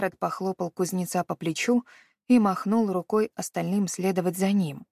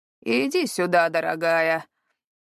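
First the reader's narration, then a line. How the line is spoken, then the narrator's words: Deliberately loud. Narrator (Russian): произнес он достаточно громко, чтобы услышали люди на козлах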